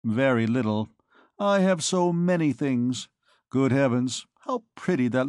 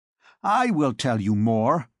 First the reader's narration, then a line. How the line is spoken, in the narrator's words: cried Dom Claude, and his voice, hitherto low, slow, and almost indistinct, turned to thunder